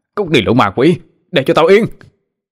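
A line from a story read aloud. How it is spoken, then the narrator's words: Screaming. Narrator (Vietnamese): Gã Hoàng gào lên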